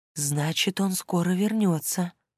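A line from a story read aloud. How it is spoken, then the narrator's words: Soft whisper. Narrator (Russian): шепнула она тихонько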